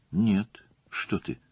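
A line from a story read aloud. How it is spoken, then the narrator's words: Even, flat voice. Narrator (Russian): ответила ровным голосом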